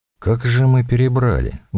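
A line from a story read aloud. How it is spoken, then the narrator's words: Strained, forced out. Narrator (Russian): выдавил фон Бок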